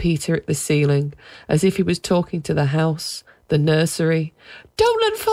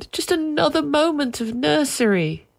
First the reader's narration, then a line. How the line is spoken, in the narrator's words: they wailed